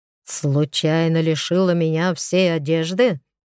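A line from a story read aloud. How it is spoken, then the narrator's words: Fierce, bloodthirsty growl. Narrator (Russian): Теперь Олег рычал забористо так, кровожадненько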